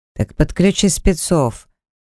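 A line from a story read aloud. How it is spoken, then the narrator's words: Menacing growl. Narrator (Russian): Я грозно рыкнул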